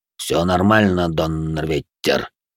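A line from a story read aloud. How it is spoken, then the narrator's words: Grumbled. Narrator (Russian): буркнул он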